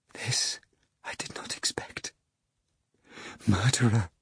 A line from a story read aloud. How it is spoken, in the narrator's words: she shuddered and whispered